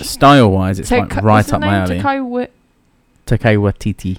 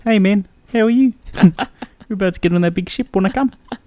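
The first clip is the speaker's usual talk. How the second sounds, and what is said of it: Imitates a film character's voice. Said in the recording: “Do your impression.”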